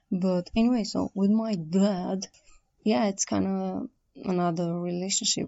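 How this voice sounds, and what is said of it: Sick-sounding voice. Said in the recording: “Sorry about my voice, I'm a little bit sick.”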